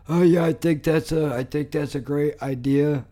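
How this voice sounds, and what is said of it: Silly mocking character voice. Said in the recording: “do this stupid fucking voice thing that I'm doing”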